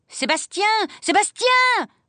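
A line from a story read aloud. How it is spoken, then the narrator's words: Yelling. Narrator (French): hurla mademoiselle Rottenmeier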